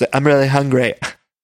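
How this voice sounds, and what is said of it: Imitates another person's voice. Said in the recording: “my Margaret impression ... I'm still warming up into it”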